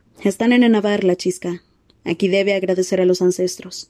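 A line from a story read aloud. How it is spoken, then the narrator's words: Lightly mocking tone. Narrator (Spanish): dijo Suracuel en un ligero tono de mofa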